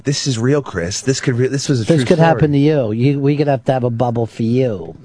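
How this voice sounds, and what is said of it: Thick Queens accent. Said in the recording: “That's how she sounded. It's a thick Queens accent.”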